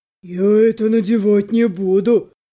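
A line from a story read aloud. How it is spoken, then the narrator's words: Indignant deep bass. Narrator (Russian): Возмущенно пробасил Бигфут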